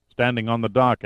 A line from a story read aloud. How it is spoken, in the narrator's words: answered Reinman